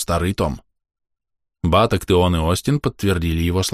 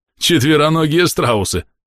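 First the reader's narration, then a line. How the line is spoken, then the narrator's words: Loud laughter. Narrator (Russian): расхохотался Гаррис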